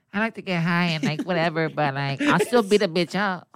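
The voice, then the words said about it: Put-on chola accent. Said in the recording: “That's a chola, fool. That's not fucking Mike Tyson.”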